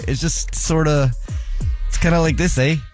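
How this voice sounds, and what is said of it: Mock Canadian accent. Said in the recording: “what is a Canadian accent?”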